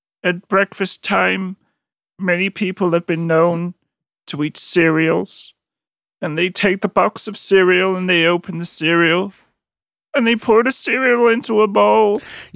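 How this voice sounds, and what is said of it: Robotic, Kermit-like impression of someone. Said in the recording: “his sort of cadence ... It is very robotic ... doing an impression ... He was doing it through the mouth of Kermit ... it does sound like he's very Kermitized”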